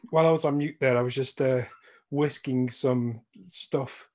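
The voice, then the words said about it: Out of breath, panting speech. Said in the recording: “Oh, my God, I'm so out of breath.”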